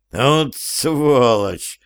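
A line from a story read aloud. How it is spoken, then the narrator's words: Growling. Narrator (Russian): рычал ему вслед Хаген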